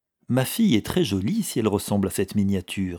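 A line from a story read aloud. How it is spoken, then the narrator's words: Plain. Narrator (French): dit le banquier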